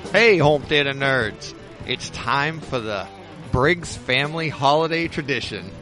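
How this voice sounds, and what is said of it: Put-on radio announcer voice. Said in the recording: “You got a radio voice. ... as soon as you started, it changed.”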